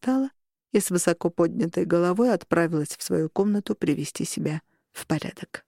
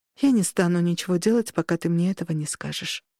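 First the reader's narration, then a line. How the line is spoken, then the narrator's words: Sighing. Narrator (Russian): вздохнула мама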